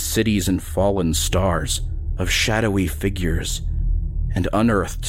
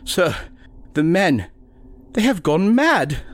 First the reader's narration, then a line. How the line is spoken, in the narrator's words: the doctor whimpered